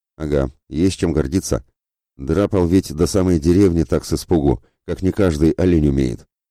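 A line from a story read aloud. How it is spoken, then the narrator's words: Venomous snort, middle-aged man. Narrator (Russian): хмыкнул ядовито Ледомил, мужчина лет 40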